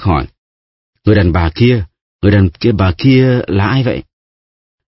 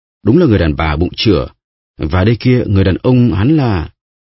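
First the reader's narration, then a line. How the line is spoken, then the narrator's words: Shocked stammering. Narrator (Vietnamese): Bertuccio há hốc mồm, mặt tái mét, nói ấp úng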